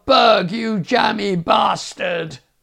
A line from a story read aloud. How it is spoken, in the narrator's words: then a yell of